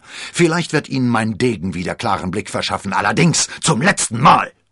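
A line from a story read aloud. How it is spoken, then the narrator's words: Shouted. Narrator (German): schrie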